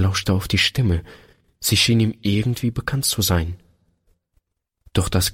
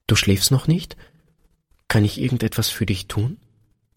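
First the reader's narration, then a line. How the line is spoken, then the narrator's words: Hesitant quiet question. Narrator (German): Einen Augenblick zögerte Peter, dann fragte er leise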